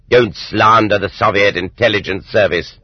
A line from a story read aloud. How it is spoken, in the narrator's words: But the presiding judge barked back